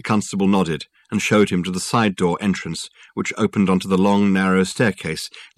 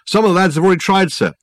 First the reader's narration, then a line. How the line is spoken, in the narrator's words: replied anxiously